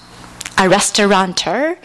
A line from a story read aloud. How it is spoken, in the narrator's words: Paul asked